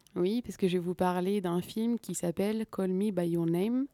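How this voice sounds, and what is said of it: Poor English accent, French speaker. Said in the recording (French): “cet accent anglais déplorable”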